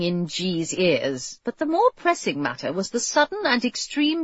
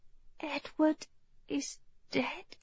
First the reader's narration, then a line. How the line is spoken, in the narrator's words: Jane said, her voice almost inaudible